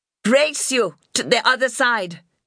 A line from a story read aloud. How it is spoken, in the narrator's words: shouted, and whooped